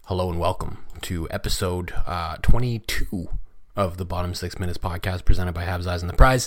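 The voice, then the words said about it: Hoarse, strained voice. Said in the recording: “I'm losing my voice. ... Maybe it's because I was yelling at my TV screen”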